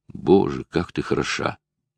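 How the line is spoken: Whisper. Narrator (Russian): прошептал он

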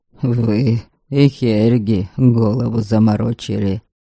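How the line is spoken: Grumbling. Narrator (Russian): проворчал Олив

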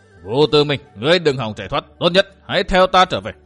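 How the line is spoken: Angry shout. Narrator (Vietnamese): Kỳ Liêm Hải quát

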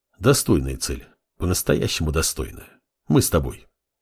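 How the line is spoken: Relieved sigh, commanding. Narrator (Russian): Синзи облегченно вздохнул и скомандовал

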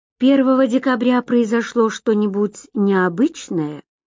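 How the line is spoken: Plain. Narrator (Russian): спросил Гарри Берг

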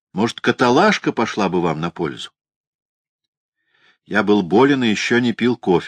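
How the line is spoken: Plain. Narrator (Russian): сказал я

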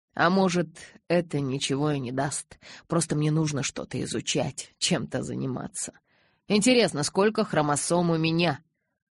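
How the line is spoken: Absent-minded mutter. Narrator (Russian): Рассеянно пробормотал я

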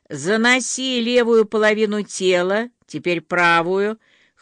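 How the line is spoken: Hoarse commanding bass. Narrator (Russian): хриплым майорским басом командовал Венечка

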